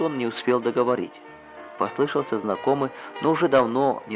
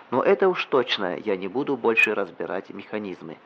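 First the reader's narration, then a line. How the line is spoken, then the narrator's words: Plain. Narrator (Russian): сказал он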